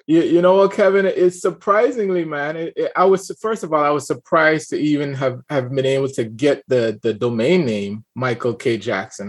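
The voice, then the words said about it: Caribbean accent with slight twang. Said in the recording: “we still hear that little twang in the voice. I love to hear Caribbean Americans with still that Caribbean accent”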